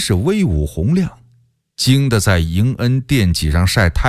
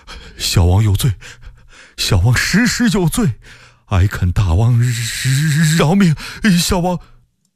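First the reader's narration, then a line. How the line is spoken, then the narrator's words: Trembling voice. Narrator (Chinese): 福王声音哆哆嗦嗦地说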